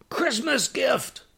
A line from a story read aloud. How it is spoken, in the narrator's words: the devil jumped out from behind the stump and yelled